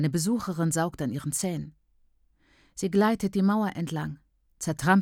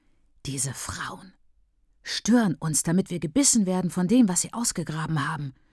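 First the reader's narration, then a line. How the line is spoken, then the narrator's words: Whispering. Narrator (German): flüstert Bertha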